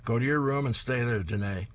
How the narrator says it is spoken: she hears her father shout behind her

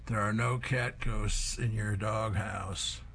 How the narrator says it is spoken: sleepily assures the big dog

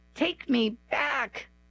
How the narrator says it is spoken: I sobbed

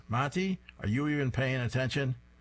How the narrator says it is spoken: The teacher shouts

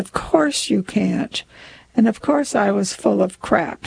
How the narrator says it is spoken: sighed

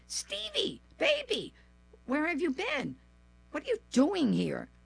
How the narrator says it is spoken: exclaimed in joyful surprise

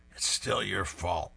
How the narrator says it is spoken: Beetle mutters through the bandages

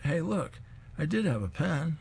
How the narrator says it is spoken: Then he exclaims

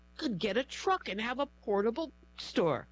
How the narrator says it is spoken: her spirit cried

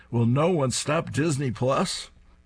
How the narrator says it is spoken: Tucker stands up, raises his fists, and shouts

